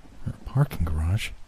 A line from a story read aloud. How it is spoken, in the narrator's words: Sheila murmured